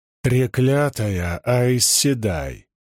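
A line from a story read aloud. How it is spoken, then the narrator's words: Growled. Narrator (Russian): прорычал Мэтт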